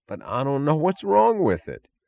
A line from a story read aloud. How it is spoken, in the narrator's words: the man sighed, bewildered